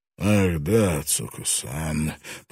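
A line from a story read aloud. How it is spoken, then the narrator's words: Gloomy. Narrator (Russian): произнес Таранага мрачно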